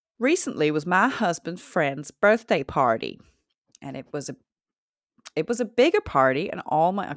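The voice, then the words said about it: Attempted southern accent drifting American. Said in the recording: “I'm going to do a southern accent ... You start just skewing to straight American”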